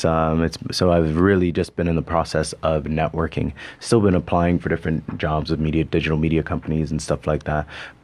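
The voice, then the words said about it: Mixed Canadian and Bermudian accent. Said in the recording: “my accent's all over the place. It's part Canadian, part Bermudian, part all sorts of stuff.”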